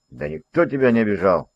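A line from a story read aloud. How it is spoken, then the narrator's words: Sharp. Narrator (Russian): резко сказал Ролан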